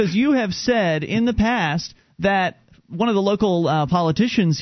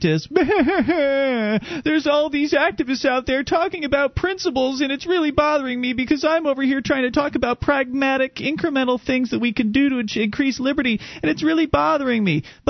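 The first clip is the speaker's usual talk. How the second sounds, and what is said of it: Mocking, crying impression of another person. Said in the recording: “That was my impression of you. ... Who was just crying on the radio? ... Yeah, because I was crying.”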